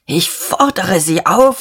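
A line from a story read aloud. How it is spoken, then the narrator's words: Hoarse with agitation. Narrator (German): sagte Dieterich heiser vor Erregung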